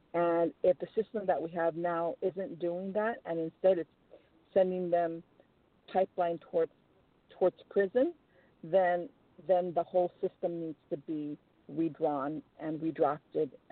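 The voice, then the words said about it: Emotional, strained voice. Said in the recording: “It's making me a little bit emotional”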